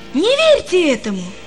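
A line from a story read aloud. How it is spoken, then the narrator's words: Sudden exclamation. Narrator (Russian): воскликнул он вдруг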